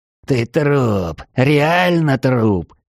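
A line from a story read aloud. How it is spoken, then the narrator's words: Hoarse wheeze. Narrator (Russian): просипел Лютый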